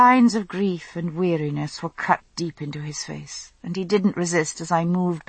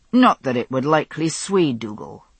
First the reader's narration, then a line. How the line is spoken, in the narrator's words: he had said, grimly